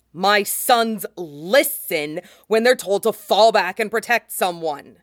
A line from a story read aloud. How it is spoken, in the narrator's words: Django snaps